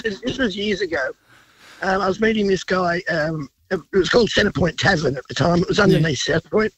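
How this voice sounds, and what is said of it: Congested voice from a cold. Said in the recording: “sorry about the voice. I've got a cold.”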